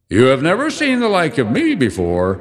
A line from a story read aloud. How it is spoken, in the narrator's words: exclaimed the spirit